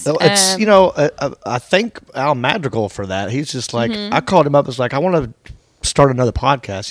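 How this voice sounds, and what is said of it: Southern American accent. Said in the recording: “you guys got the same accent ... two Southern ... comedians”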